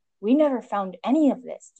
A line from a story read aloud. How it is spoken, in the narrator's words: Detective Tsukauchi exclaimed